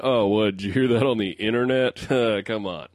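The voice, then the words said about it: Exaggerated impression of his own voice. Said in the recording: “That's a pretty good impression of yourself.”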